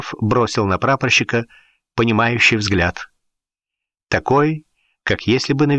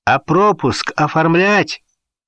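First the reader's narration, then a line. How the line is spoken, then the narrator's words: Shouted after them. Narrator (Russian): крикнул им вслед прапорщик Коробец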